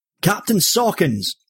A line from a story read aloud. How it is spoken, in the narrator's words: Smith called out